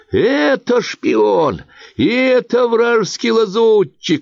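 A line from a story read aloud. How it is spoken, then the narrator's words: Shrill squeal. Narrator (Russian): визжала бородатая идея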